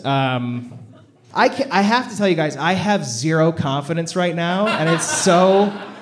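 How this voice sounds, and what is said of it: Shaky, nervous voice. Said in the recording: “my voice is shaking”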